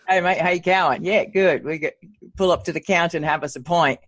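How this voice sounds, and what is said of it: Put-on Australian accent. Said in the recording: “You just want to be down there with the Aussies ... I'll get you accustomed to the accent.”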